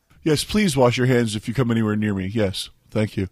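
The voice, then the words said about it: Sounds ill, sickly voice. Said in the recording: “he sounds ill”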